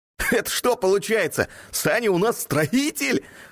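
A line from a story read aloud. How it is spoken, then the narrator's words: Chuckling. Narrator (Russian): хохотнул Ник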